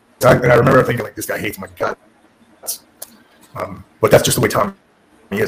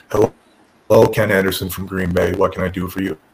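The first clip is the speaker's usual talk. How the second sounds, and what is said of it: Super monotone voice. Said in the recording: “This super monotone voice.”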